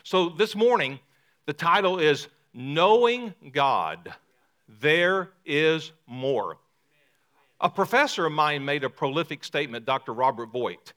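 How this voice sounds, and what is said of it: Lower Mississippi region US accent. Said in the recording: “my accent that I'm from downriver... The accent's very unique... way downriver, like in the Arkansas River and the Mississippi River... I know you can hear that brogue”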